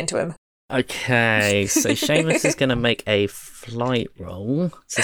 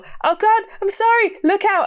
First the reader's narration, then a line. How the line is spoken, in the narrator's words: start kind of veering wildly and yell